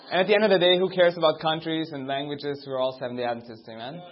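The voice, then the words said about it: Austrian-accented English. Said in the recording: “Don't be distracted by my accent. I'm from Austria.”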